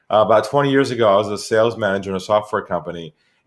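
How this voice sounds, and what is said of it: Californian American accent. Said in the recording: “I'm originally from California, from San Diego ... still got the accent”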